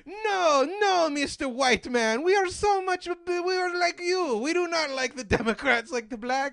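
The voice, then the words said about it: Put-on Italian accent. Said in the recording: “That's my Italian accent. It's flawless.”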